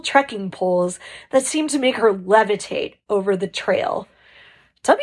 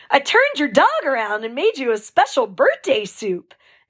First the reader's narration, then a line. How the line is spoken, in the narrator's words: exclaimed the lead aid station volunteer